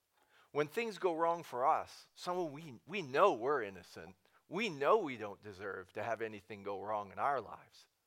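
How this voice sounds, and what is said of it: Sarcastic tone. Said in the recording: “saying that sarcastically”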